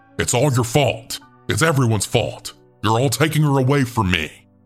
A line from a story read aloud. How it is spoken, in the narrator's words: he then yelled out